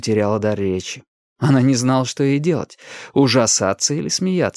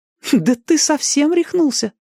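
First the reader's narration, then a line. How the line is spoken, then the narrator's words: Exclaimed. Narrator (Russian): воскликнула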